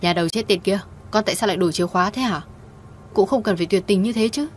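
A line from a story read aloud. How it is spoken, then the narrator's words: Mother shrieking loudly. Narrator (Vietnamese): mẹ cô hét toáng lên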